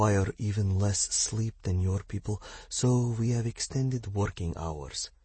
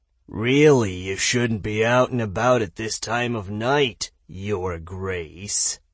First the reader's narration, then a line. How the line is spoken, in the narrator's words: a rusty voice sneered condescendingly